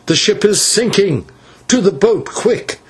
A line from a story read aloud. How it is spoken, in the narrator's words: he cried